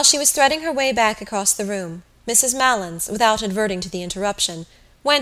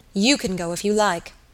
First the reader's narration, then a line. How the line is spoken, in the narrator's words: said Gabriel coldly